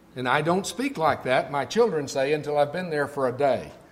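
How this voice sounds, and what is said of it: Southern US accent. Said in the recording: “all of you can hear my accent ... I would have thought it was further south ... that's the way they pronounce it in Texas”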